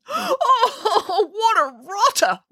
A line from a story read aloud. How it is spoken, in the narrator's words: wailed Boris